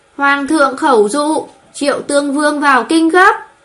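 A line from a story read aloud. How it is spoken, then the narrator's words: Loud proclamation. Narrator (Vietnamese): Triệu Công Công cao giọng thuật lại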